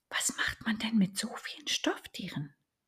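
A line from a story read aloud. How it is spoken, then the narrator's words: Stunned whisper of little duck. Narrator (German): flüsterte die kleine Ente fassungslos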